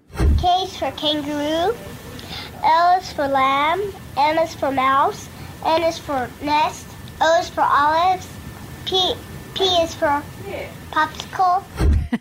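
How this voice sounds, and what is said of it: Young child with American accent. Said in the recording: “5-year-old ... who lived in America? ... With an American accent?”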